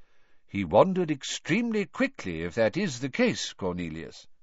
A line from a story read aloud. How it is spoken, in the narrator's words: said Dumbledore calmly